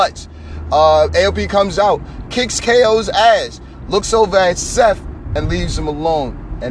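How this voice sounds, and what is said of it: Usual voice. Nothing is said of it.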